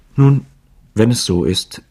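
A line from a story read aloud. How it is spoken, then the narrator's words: Stammering, half crying. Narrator (German): sagte sie mit glühendem Gesicht, stammelnd und halb weinend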